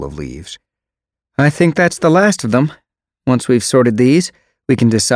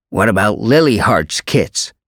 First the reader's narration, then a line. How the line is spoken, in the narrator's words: Jayfeather snapped